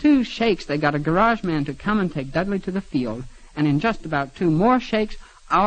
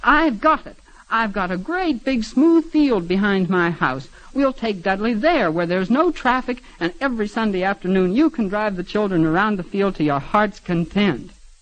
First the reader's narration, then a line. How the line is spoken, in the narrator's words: the little old man, who was a stranger, said